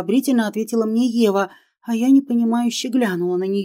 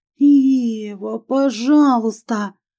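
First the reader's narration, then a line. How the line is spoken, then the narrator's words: Pleading moan. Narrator (Russian): простонала в мольбе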